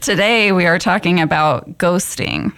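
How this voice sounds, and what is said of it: Spooky ghostly voice. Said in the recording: “spooky voice”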